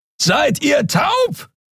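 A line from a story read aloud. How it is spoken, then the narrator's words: Shouting across a great distance. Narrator (German): brüllte Keru von der anderen Seite des Portals über die Kluft zwischen zwei Planeten hinweg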